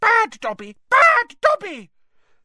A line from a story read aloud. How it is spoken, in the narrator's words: squealing